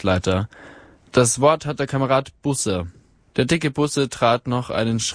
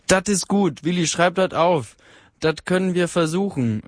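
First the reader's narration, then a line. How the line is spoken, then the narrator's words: Called out. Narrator (German): rief eine Stimme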